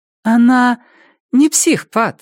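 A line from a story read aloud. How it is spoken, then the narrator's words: Forced casual cheerfulness. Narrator (Russian): сказала Робин, стараясь говорить непринужденно, даже весело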